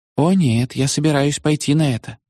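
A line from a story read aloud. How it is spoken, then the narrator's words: Sad objection. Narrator (Russian): печально возразила она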